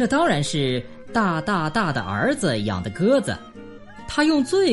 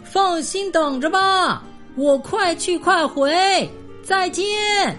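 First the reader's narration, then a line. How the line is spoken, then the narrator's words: Loud, calling down. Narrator (Chinese): 他朝着下面大声说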